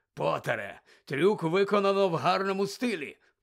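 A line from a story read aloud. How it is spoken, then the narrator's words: Growl. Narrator (Ukrainian): прогарчав він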